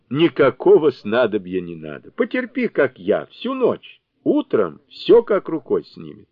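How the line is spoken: Laughing. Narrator (Russian): Сунь-Укун, смеясь, отвечал

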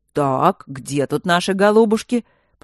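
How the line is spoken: Deep commanding bass. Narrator (Russian): пробасил комендантский голос

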